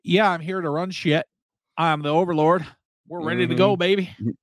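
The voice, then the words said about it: Put-on cowboy accent. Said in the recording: “I'm just assuming he's got an accent being from there. I don't know what kind of accent I was going for. I guess cowboy.”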